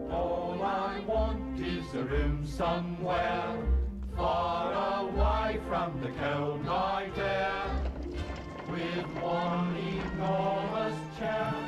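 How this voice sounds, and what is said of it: Thick British accent, singing. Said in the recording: “you can tell the British accents there ... They sound almost, they're so thick, they almost sound fake”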